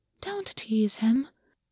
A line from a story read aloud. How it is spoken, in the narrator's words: the rabbit quietly chided, in a voice so soft that Gwyn had to strain for it